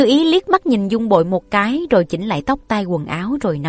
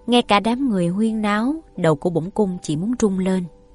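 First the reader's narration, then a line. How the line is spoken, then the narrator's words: Sighing. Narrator (Vietnamese): Nàng thở dài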